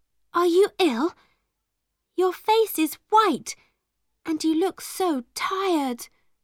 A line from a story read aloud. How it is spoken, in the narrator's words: she cried